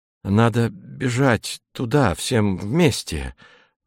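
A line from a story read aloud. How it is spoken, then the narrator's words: Timid suggestion. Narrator (Russian): робко предложил Костенко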